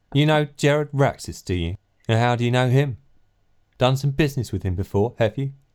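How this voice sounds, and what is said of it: Caricatured impression of another person's voice. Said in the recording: “You should do the barman in the voice of David Bowie. ... In the voice of David Bowie? ... This isn't really how David Bowie sounds. ... puts on this kind of voice when they're doing a David Bowie impression. ... It's like a caricature.”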